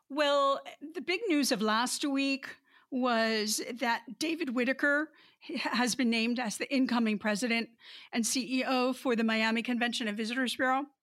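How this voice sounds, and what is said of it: Sick, under-the-weather voice. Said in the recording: “a little bit under the weather ... Sorry for my voice.”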